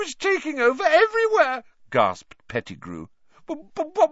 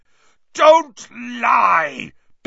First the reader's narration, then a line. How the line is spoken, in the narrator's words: bellowed Black